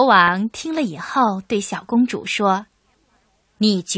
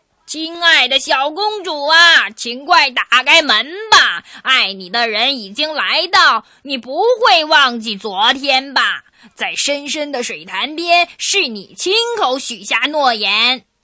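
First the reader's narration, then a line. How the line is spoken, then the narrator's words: Loud calling frog. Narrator (Chinese): 门外的青蛙又大声的叫起来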